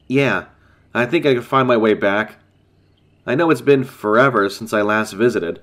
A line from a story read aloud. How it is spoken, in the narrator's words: chuckled